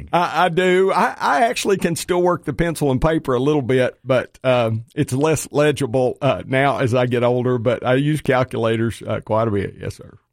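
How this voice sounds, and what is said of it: Noticeable regional accent. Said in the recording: “most people think with my accent, you can't do that”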